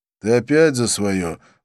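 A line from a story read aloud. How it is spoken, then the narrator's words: Sighing. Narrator (Russian): вздохнул я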